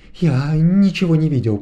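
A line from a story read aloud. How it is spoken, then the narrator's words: Babbling mumble. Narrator (Russian): пролепетал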